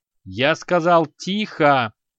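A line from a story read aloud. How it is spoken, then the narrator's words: Roar, leader. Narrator (Russian): снова взревел вожак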